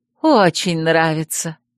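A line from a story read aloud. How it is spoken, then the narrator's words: Smiling. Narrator (Russian): улыбнулась она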